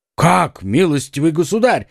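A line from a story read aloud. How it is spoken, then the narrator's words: Exclaiming. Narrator (Russian): воскликнул Д'Артаньян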